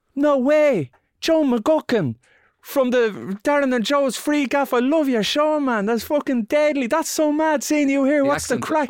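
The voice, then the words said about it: Impression of Robert Sheehan's accent. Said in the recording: “That's pretty good, I think ... It's not bad ... good Robert Sheehan ... you're distracting from the words, though, with the accents”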